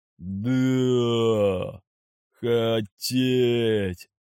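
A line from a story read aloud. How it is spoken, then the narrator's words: Drawn out, group. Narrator (Russian): протянули они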